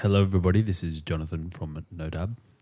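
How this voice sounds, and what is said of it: Very low, deep voice. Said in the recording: “your voice is so low.”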